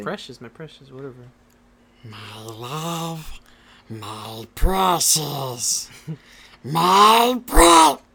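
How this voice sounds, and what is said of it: Imitates Gollum's voice. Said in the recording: “Do some Gollum for us right now.”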